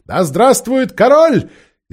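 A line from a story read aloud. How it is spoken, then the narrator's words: Loud eager crowd cheer. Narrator (Russian): солдаты, сообразившие только, что им дадут вина, громко подхватили этот клич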